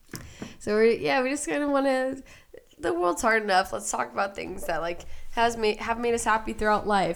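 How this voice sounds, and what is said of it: Hoarse, fading voice. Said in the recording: “My voice is disappearing”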